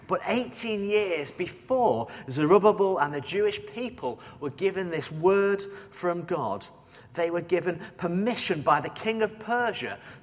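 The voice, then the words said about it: Northern accent, sleepy voice. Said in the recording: “with a northern accent and a little sleep, and you'll appreciate my condition this morning”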